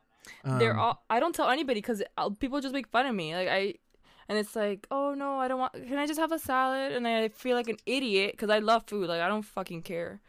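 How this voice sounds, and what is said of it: Speaks with a noticeable accent. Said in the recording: “the way that you say gluten... With my accent?”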